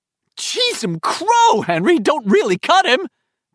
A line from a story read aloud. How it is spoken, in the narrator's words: Belch screamed, and his voice was high, almost a girl's voice